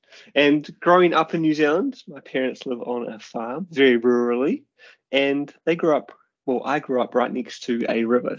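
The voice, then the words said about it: New Zealand accent. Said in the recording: “I am a New Zealander, as you can probably hear from the accent.”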